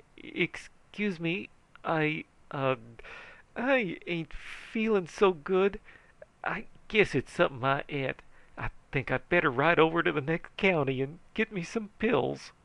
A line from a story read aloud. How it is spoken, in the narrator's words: The sheriff turned pale and says feebly